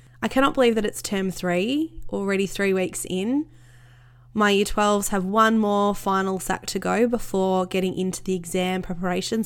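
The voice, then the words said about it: Voice sounds sick. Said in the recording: “As you can hear by my voice, I have struggled a little bit with illness”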